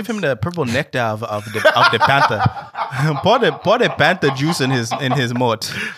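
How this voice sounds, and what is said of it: Put-on African accent. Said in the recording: “are you African? ... African accent ... That shit was on point.”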